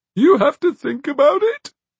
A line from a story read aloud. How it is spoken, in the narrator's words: sobbed Magwitch